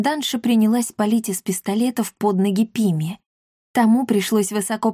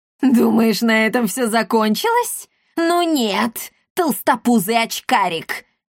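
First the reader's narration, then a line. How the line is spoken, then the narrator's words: Snide laughter. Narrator (Russian): ехидно расхохоталась комендантша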